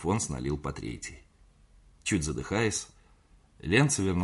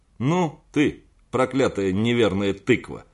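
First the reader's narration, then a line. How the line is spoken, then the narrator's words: Laughing loudly. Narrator (Russian): захохотал он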